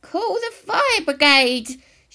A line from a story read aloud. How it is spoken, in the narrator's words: shouted suddenly